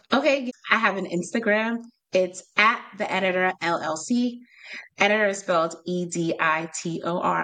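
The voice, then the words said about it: Strong New York accent. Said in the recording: “I'm from New York, so I have a crazy accent.”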